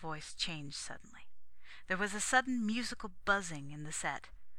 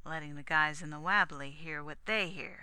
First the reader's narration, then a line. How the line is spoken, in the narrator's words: said the copter man grimly